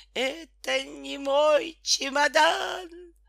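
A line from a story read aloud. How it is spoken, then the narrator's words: Hoarse fearful bellow. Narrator (Russian): Петька хрипло заревел от страха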